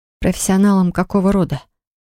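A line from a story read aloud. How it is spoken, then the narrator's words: Trembling-voiced question. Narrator (Russian): Дрожащим голосом спросила Поля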